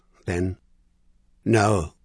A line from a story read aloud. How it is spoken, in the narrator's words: Dominic Stainer said, his voice almost inaudible